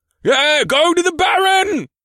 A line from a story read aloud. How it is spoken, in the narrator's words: Another called out